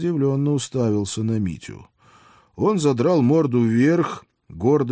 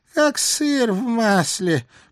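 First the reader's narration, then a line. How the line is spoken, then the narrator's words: Choked breathless exhale. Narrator (Russian): придушенно выдохнула она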